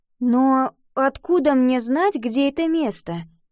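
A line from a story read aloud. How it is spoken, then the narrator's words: Uncertain question. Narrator (Russian): неуверенно спросила Ива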